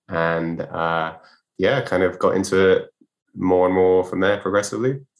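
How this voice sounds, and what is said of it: British accent. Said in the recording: “we can tell by the accent you are uh, of the British persuasion.”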